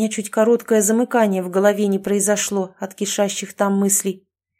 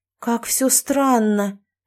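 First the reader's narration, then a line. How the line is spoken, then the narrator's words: Drawled. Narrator (Russian): протянула я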